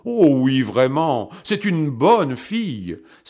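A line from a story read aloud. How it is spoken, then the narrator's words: Exclaiming. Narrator (French): s'écria le conseiller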